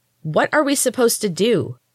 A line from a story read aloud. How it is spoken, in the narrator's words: shouted the girl with the wild hair angrily